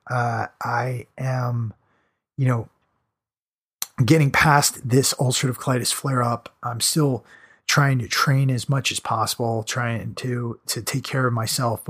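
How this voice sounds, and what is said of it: Strained, fading voice. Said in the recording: “Sorry I've been losing my voice over here.”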